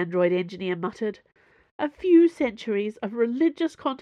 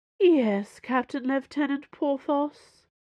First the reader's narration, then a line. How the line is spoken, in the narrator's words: Bazin sighed